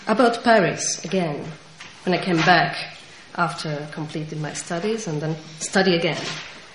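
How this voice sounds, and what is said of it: Central Eastern European accent. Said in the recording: “With my Central Eastern European accent.”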